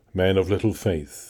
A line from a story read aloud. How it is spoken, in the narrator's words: he said